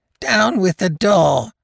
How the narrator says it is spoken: he cried

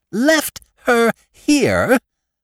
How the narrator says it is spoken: cried my wife

